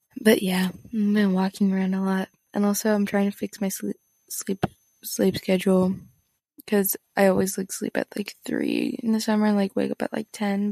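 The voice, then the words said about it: Tired, exhausted-sounding voice. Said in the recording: “really, really tired. That's why my voice sounds so exhausted.”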